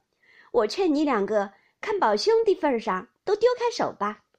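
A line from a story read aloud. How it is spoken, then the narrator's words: Laughing. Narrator (Chinese): 宝钗也笑道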